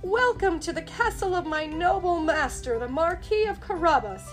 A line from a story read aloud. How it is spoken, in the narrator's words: he cried